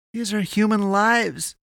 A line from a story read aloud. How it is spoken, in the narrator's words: she pleaded